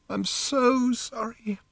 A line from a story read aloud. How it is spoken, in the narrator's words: she said again, sobbing